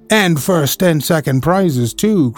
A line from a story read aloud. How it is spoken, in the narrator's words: cried his cousin